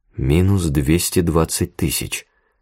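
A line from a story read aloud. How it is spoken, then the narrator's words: Muttering. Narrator (Russian): пробормотал Иван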